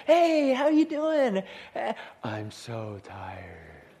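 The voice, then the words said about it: Tired, weary voice. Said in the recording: “You hear it in their voice. ... You know people that talk like that”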